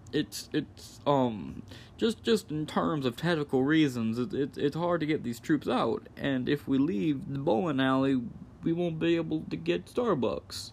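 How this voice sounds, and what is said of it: Imitates a politician's voice. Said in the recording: “My Joe Biden is becoming Bill Clinton at an alarmingly fast rate... that's a Biden impression”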